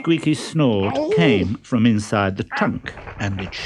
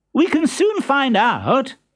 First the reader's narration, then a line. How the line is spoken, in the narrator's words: exclaimed Columbine